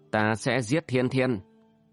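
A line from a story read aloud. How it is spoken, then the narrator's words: Harsh, emphatic repetition. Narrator (Vietnamese): Tử Nhân gằn giọng lặp lại lời nói của mình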